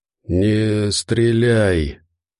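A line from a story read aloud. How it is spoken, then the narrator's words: Faint breathless hoarse respirator whisper. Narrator (Russian): Голос был едва слышным шелестом, выходящим из респираторной коробки, хриплым, лишенным воздуха шепотом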